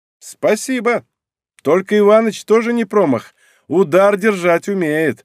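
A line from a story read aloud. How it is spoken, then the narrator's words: Laughing. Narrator (Russian): рассмеялась Сабина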